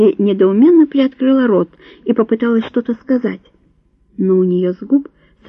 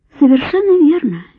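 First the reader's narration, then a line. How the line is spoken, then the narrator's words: Cheerful confirmation. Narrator (Russian): весело подтвердил граф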